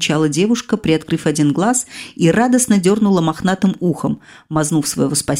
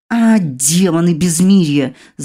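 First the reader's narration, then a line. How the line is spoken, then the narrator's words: Growling angel. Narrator (Russian): зарычал ангел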